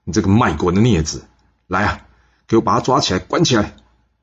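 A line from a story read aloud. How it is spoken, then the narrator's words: Loud, furious. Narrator (Chinese): 郑文公听完了，大声怒视他的儿子世子华说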